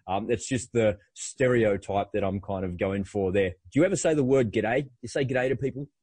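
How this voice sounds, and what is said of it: Broad Australian accent. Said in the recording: “I sound like a really dinky-die Aussie because I've lived here my entire life”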